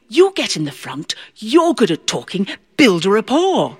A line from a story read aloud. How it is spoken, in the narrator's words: whispered